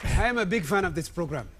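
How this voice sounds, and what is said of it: Put-on African accent. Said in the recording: “he's doing his Black Panther accent. ... He's doing an African accent. ... an impression of Eddie Murphy in Coming to America”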